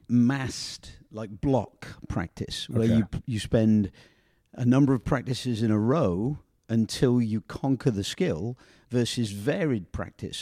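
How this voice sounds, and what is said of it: Speaks with a noticeable accent. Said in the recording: “your accent took me”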